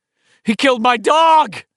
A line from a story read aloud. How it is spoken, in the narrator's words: Mike cried out, his voice shrill and breaking